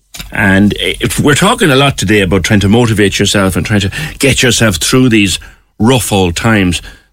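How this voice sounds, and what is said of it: Irish Cork accent. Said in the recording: “Apologies for the Cork accent.”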